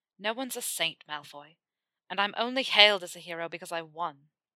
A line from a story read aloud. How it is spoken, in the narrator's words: he said bitterly, putting as much disdain into that last word as he could